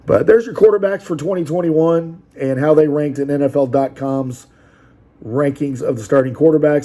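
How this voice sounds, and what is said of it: Worn-out, strained voice. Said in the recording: “I apologize for my voice. I've been doing a lot of these videos. ... And, man, it's going. It's going.”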